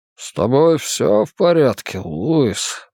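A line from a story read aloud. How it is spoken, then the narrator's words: Murmured. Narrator (Russian): пробормотал Джуд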